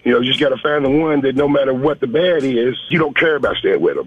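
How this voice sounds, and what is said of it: Regional Southern US accent. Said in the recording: “Where you calling from, Louisville or Charlotte? ... I heard it. I could hear it in your voice.”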